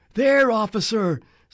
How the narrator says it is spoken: somebody yelled

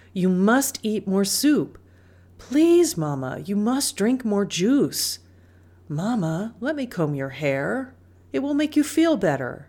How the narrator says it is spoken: begged

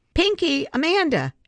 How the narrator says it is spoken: Abby shouted

